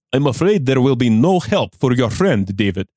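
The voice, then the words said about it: Put-on Russian accent. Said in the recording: “He has a Russian accent, but he isn't Russian.”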